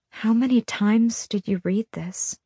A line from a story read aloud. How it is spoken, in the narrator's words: I asked, my voice small